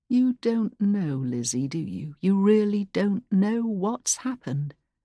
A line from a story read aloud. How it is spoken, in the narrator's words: said softly, his tone pitying now